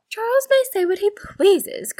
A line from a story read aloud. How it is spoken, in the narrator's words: cried Mary to Anne